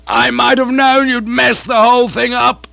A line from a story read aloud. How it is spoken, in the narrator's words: she boomed